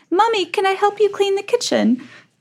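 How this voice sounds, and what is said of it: Put-on English accent, child's voice. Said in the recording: “So he's English. Your dream child has an English accent? ... He has like an unexplainable English accent.”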